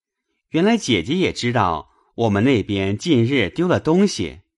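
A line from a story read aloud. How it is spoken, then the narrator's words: Laughing. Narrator (Chinese): 宝玉笑道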